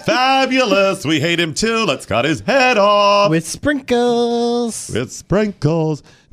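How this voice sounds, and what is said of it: Snooty put-on French accent. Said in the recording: “I probably shouldn't be that accent ... they're like snotty French people”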